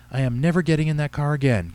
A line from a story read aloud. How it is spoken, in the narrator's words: Katie cried